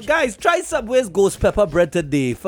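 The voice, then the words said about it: Put-on Mexican accent. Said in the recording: “my impression of a Mexican”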